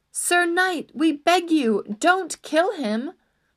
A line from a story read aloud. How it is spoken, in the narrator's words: the lady cried